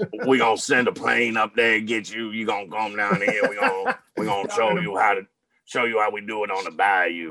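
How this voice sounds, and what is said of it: Imitates another person's voice. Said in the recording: “good Coach O impersonation? ... Lots of cigarettes.”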